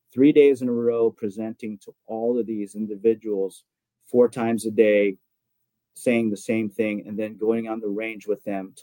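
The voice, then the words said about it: Rough, worn-out voice. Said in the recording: “why my voice is a little fried”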